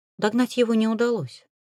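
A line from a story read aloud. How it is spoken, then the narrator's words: Soft. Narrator (Russian): мягко произнесла я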